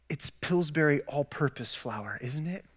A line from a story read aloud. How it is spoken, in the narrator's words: whispered to her